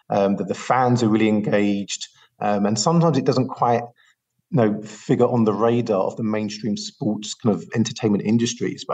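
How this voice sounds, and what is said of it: British accent. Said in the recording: “as the listeners may have guessed from my accent, I'm not local to Los Angeles. I'm from the UK”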